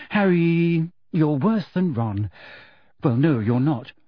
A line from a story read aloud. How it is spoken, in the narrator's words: she sighed